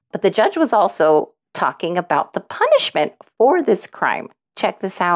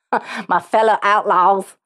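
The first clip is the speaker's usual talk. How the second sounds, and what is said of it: Put-on Texas accent. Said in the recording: “I probably should have said that in more like a Texas accent.”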